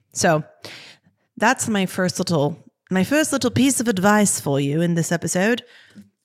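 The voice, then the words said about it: Put-on British accent. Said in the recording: “what if I did a whole episode in a British accent”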